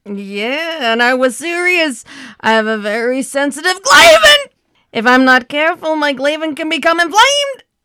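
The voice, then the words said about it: Funny voice imitating another person. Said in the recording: “doing that voice ... that funny voice like Jerry Lewis was known for”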